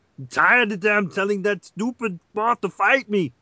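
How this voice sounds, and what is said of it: Grumpy monster character voice. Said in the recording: “you do the voice of Godzilla”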